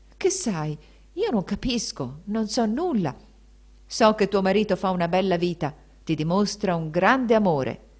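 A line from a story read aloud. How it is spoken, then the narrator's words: Baron's veiled menacing exclamation. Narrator (Italian): esclamò il barone con voce gravida di sorde minacce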